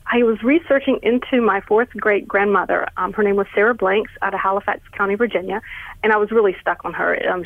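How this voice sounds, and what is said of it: Southern North Carolina accent. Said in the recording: “I'm hearing a little Southern in your voice ... I'm from North Carolina, and this is definitely, I would tell you, this is a North Carolina accent, or at least one of them.”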